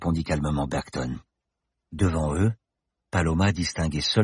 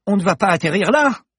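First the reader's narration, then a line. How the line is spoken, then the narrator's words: Screaming. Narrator (French): hurla Paloma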